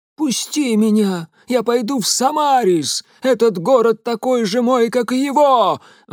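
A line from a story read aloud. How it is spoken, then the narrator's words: Yelling ragged man. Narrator (Russian): вопил оборванец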